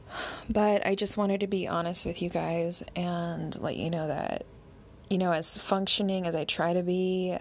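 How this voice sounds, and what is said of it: Hoarse voice after crying. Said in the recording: “My voice is a little hoarse because I cried so much”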